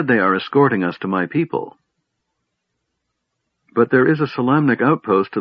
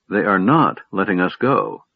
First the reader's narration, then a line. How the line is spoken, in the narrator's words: Lorana said sharply